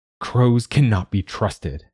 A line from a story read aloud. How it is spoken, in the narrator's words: she says